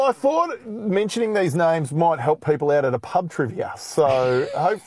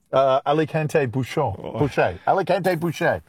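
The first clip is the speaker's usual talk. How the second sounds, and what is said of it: Put-on French pronunciation. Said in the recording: “I really don't have the good accent to put a French inflection on those ... you sound very French to me”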